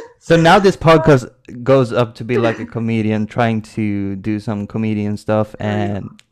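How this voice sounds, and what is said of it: Usual voice. Nothing is said of it.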